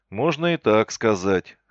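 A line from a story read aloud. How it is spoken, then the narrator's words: Smirking grunt. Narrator (Russian): хмыкнул я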